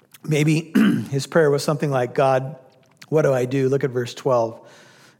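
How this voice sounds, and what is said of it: Strained, failing voice. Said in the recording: “Excuse me, my voice is going here.”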